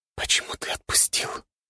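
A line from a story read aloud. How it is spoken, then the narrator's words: Whisper. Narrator (Russian): прошептала в тишину комнаты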